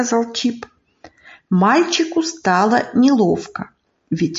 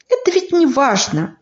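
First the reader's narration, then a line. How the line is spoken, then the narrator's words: Boy, brisk and cheerful. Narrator (Russian): бодро сказал мальчик, чтобы исправить ошибку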